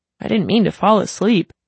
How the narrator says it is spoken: said, fighting off a soft yawn

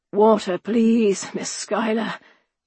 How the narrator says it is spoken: croaked a British regular, lying in a furrow beneath one of our orchard trees

